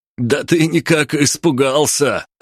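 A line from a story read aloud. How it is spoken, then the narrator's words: Mocking chuckle, soldier. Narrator (Russian): Хохотнул последний оставшийся в живых боец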